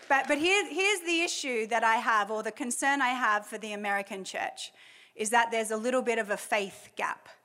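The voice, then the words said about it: Speaks with a noticeable accent. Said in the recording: “I'm American too, even though I have this accent.”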